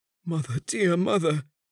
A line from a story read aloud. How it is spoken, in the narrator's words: cried the young man in a paroxysm of grief